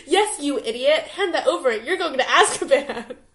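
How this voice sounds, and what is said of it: Character voices while reading aloud. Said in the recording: “doing the voices and everything... you're a little switching voices”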